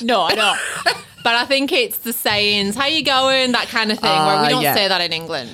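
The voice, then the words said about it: Northeast English accent. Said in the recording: “my dodgy accent ... English ... I'm from the northeast, but my family actually think I sound like an Aussie”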